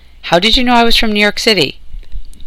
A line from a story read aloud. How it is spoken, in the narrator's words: Charlie gasped out